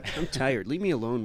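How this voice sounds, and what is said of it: Imitates another person's voice. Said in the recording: “Is that your impression of Mark Maron?”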